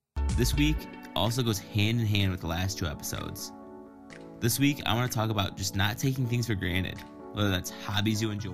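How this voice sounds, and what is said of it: Vocal fry, put-on radio voice. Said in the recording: “vocal fry thing ... that happens when people are trying to turn on the radio voice”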